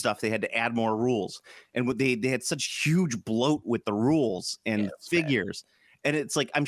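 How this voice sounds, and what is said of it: Usual voice. Nothing is said of it.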